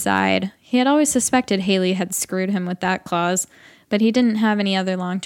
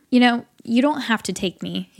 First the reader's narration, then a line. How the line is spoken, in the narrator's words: he said